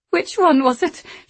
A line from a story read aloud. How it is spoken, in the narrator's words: she said frantically